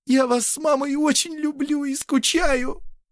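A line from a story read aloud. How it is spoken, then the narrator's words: Sobbing. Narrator (Russian): рыдала Алена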